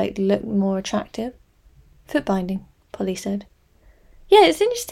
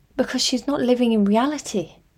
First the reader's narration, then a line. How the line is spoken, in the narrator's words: Polly cried